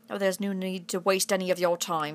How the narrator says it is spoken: said Sir Philip coldly

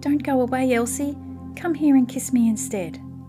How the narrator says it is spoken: cried Katy

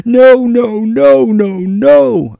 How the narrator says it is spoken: utter helplessness and he cried

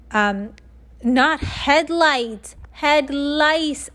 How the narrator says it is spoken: shouted Andrea

